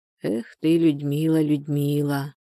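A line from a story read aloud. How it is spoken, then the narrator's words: Quiet muttering under breath. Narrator (Russian): Тихо приговаривая себе под нос, Анфиса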